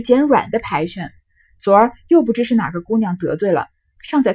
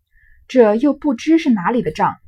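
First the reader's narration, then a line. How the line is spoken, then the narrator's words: Sighing. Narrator (Chinese): 宝玉叹道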